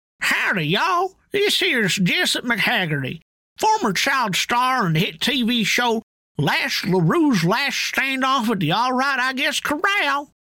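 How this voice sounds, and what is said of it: Twangy country character voice. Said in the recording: “Do you like twang? Do you like your twang with a double dose of getting her done?”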